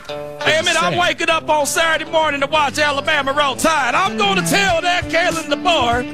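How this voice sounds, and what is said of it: Put-on southern accent. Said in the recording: “Out here speaking with a southern accent.”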